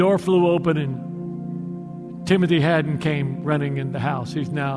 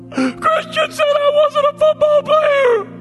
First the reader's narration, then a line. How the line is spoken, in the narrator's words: sobbed